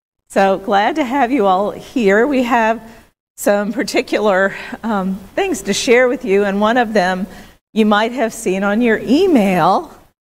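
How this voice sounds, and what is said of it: Hoarse, cracking voice from a cold. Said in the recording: “I am kind of losing my voice. ... I've got a cold. ... I may sound like an adolescent boy whose voice is changing.”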